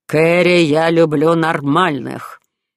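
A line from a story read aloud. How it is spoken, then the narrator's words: Growled final word. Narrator (Russian): Прорычав последнее слово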